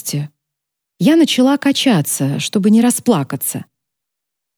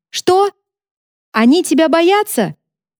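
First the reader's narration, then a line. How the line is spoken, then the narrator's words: Shouting. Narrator (Russian): Я крикнула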